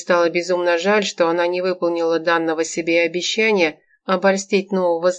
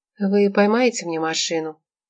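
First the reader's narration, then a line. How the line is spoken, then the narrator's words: Muffled hollow question. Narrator (Russian): глухо спросила она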